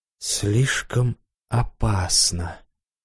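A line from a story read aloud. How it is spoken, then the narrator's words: Near whisper in ear. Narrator (Russian): Почти шептала мне на ушко очаровательная секретарша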